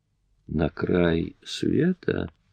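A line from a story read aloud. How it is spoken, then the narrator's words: Slow repetition. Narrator (Russian): медленно повторила она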